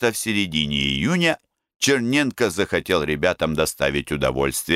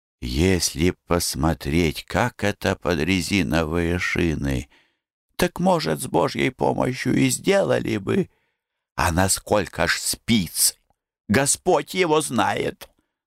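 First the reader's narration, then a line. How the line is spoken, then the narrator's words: Timid, bewildered whisper. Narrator (Russian): Козырь несмело улыбнулся и растерянно шептал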